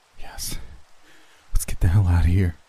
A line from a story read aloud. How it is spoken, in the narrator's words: replied nervously